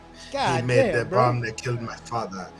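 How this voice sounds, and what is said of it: Imitates another person's accent. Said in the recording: “That accent, Mickey Rourke's accent.”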